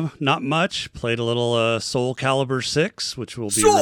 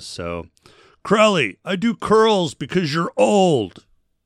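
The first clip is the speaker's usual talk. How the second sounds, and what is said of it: Imitates another person's voice. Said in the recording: “my best Joe impression”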